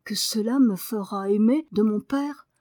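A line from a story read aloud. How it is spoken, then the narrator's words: Slightly timid. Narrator (French): dit Daniel, un peu timidement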